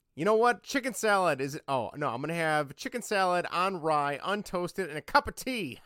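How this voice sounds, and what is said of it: George Costanza impression, New York accent. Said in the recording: “that was a good George ha-ha ... Good impression ... that New York accent”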